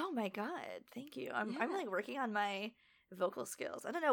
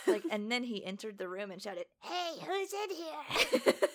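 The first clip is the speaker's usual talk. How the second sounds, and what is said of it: Baby-like character voice. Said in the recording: “the only, like, voices I make are just, like, that baby noise voice I make ... All the characters sound like that.”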